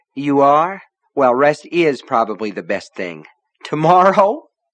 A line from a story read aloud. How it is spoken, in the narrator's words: Polly laughed